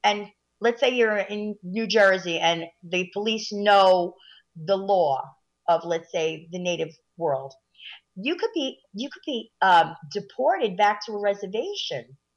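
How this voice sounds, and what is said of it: Italian-American sounding accent. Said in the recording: “most people would take you as Italian. ... Especially with your accent.”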